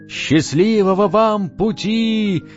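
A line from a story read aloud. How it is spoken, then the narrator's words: Escorts shouting. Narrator (Russian): крикнули им провожатые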